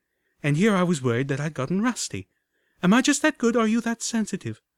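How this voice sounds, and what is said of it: Amused female voice. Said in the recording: “I could hear the amusement in her voice.”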